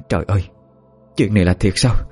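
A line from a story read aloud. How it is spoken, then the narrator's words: Stammering. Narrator (Vietnamese): Bà Ngọc miệng lắp bắp nói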